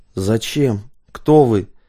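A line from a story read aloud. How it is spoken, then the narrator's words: Hoarse croak. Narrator (Russian): прохрипел Дмитрий Феоктистович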